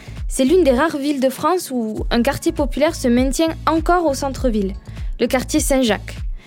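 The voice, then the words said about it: Southern French accent from Perpignan. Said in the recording (French): “je viens du Sud. De Perpignan plus exactement, comme mon accent le trahit”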